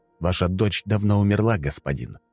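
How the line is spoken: Dry, hopeless. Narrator (Russian): сухо, без единой капли надежды

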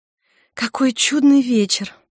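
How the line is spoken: Sighing. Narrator (Russian): вздохнула Мари

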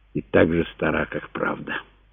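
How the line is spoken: Whisper. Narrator (Russian): прошептал ей Тит

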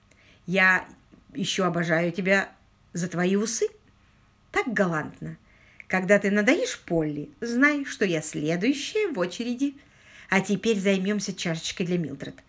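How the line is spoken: Businesslike tone. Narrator (Russian): деловым тоном продолжила Сьюзан

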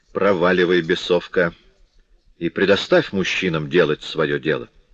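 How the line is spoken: Resolute declaration. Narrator (Russian): Тенардия свойственным ему решительным тоном заявил

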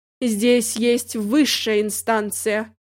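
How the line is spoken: Official tone. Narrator (Russian): официальным тоном сказал Миша

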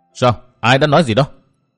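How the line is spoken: Furious shouted question. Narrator (Vietnamese): Nguyên Bình đỏ mặt tía tai, máu dần xông lên khó dằn được, chàng quát hỏi

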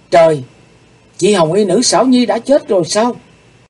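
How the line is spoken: Shocked exclamation. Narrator (Vietnamese): Hắc Phụng Hoàng thẳng thốt kêu lên

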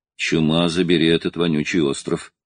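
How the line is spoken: Grumbling. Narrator (Russian): проворчал Брок

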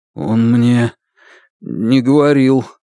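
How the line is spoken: Forced out with effort. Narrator (Russian): сумел выдавить из себя Лун

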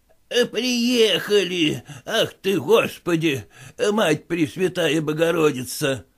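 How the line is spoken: Toothless mumbling. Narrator (Russian): послышалось его шамканье

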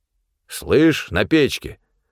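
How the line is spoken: Stern speech. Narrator (Russian): строго сказал Павел

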